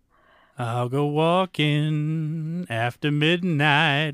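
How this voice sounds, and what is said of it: Imitates a country singer's singing voice. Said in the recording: “That was perfect impression of her.”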